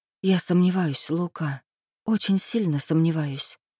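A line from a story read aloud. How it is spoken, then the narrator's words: Female whispering. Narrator (Russian): прошептала я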